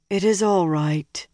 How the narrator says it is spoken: Nynaeve said wearily

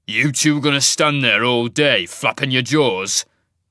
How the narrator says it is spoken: snarled

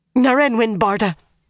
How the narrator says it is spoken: the seamstress gasped suddenly

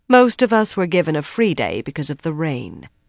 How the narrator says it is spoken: Bera replied calmly

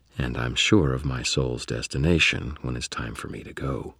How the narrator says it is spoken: He paused and then added in a gentle voice

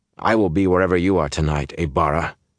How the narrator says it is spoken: said in a hard voice

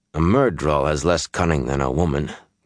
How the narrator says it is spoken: Gaul said in a flat voice

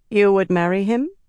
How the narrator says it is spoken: Amice asked

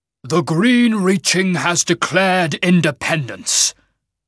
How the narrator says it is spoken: the Shaman growled

